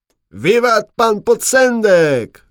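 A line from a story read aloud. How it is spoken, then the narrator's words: Young man shouting, group echoing. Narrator (Polish): krzyknął najmłodszy ze szlachciców, a reszta zaraz mu zawtórowała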